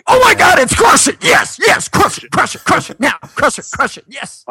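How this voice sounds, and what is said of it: Excited Gary Vaynerchuk impression. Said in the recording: “That was my Gary impression. ... That is how he talks.”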